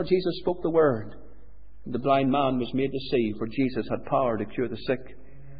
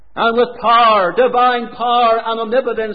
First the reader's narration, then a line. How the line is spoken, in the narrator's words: he cried out